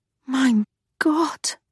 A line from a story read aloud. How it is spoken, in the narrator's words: Charlotte breathed